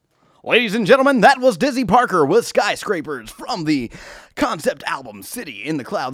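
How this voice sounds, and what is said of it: Cheesy DJ announcer voice. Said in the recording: “do my cheesy DJ voice ... Let me bring the cheesy DJ in here”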